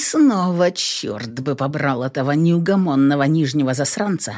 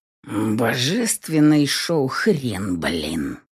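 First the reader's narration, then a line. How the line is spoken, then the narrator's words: Stubborn grumble. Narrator (Russian): Упрямо буркнул я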